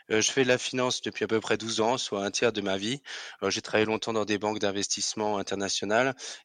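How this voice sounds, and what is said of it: Alsatian French accent. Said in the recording (French): “certains devineront à mon nom ou à mon accent que je suis alsacien”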